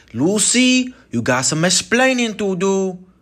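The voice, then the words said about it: Poor imitation of another person's accent. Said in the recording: “That's a horrible Ricky Ricardo accent”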